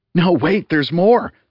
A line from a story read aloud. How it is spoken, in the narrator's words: said Bug happily